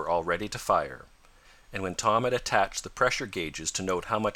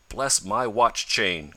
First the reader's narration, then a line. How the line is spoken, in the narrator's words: cried Mr